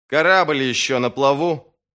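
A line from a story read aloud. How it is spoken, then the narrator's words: Booming. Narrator (Russian): прогремел Бояс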